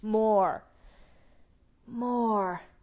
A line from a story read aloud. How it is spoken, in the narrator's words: who gasped